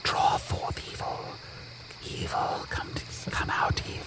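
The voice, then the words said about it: Whispering. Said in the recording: “Stop whispering. Stop whispering at my chest.”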